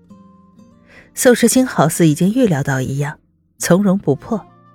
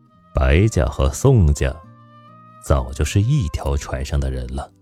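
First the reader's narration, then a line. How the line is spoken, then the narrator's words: Low voice. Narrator (Chinese): 宋时清低声回答白城的话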